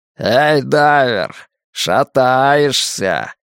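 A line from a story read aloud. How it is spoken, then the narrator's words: Mocking shout from behind. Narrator (Russian): насмешливо кричат в спину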